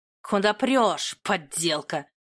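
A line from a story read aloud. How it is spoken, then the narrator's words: Menacing growl. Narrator (Russian): Грозно рыкнул Тамерлан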